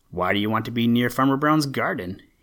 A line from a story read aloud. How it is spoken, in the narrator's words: he asked